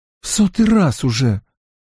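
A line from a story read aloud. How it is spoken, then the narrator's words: Tired. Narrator (Russian): устало сказала Эгвин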